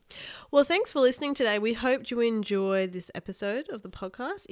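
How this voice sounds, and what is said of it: Sick-sounding voice. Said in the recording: “apologize for my voice. I'm sick again.”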